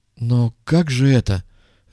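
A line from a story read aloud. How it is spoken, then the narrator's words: Bewildered question, colonel. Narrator (Russian): растерянно спросил полковник Асаад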